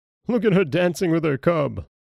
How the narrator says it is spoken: All the robbers laughed and said

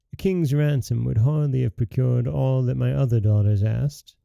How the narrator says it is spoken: said

